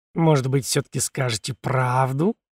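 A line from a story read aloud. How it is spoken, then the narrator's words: Insinuating, ingratiating question. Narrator (Russian): вкрадчиво уточнил Филипп Петрович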